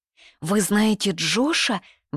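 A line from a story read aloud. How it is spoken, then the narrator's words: Excited girl asking. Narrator (Russian): взволнованно спрашивает девочка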